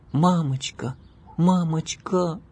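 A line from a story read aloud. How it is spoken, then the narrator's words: Girl's pleading tone. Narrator (Russian): умоляющим тоном произнесла девочка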